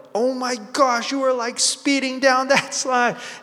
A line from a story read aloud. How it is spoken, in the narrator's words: all of a sudden I'm hyped and I'm shouting with her